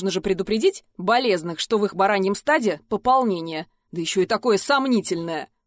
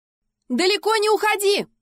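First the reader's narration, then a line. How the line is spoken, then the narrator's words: Shouting after someone. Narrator (Russian): крикнули мне вслед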